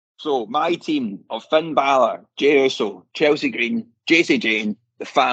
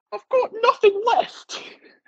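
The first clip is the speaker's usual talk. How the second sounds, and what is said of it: Imitates another person's voice. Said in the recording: “You do the voice as well. ... That's pretty good, actually.”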